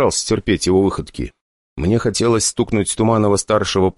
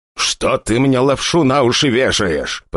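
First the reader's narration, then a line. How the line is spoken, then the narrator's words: Father growling, less confidently. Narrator (Russian): прорычал папаша, но совсем уже не так уверенно, как прежде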